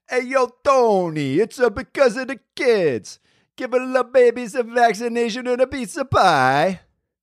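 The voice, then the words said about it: Deliberately bad Italian accent. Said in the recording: “that's a terrible Italian accent.”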